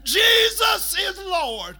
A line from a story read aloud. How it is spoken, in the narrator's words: from that microphone, coming out of Cape Coast, he just kept yelling to every passing car